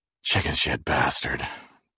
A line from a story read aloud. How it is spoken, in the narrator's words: Jerry said, panting with pain